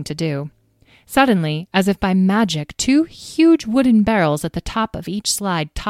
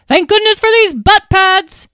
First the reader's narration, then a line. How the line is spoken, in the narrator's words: She yelled as she slipped and slid around a bend in the slide